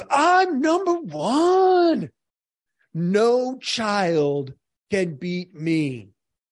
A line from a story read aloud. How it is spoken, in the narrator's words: Jim Carrey screams